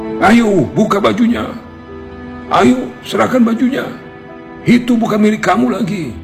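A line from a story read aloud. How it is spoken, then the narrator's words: Angry crowd shouting together. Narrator (Indonesian): Orang-orang yang sedari tadi berkerumun dan geram dengan kelakuan si lelaki sombong rame-rame berteriak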